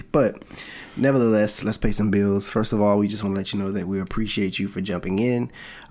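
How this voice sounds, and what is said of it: Raspy voice from a cold. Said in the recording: “I got a little bit of a cold, so my voice may sound a little raspy initially.”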